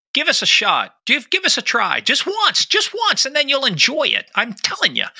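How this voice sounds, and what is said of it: Bad imitation of another person's voice. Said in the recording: “my bad Christopher Walken impression ... It was very bad.”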